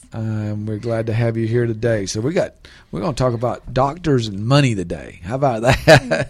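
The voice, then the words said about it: Southern South Georgia accent. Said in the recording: “a little southern accent here getting in the way. Just that South Georgia accent just can't get out it sometimes”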